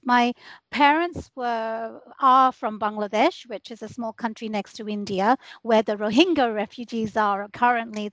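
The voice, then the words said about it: British accent. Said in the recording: “if they've tuned into my accent, I moved here from the United Kingdom. I was born and raised there.”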